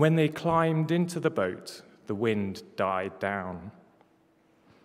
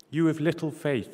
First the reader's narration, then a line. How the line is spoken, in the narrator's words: he said